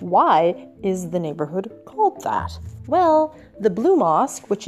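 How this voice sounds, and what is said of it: Usual voice. Nothing is said of it.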